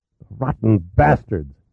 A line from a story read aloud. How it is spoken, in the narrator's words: hissed